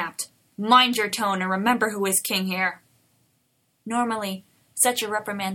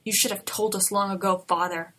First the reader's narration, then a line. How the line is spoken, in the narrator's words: Arthur growled back